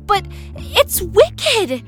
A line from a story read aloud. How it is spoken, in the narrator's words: exclaimed Martha